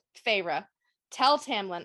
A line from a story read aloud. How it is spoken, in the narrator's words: I said, choking on his name, on the thought of what he'd done to Rhys, his family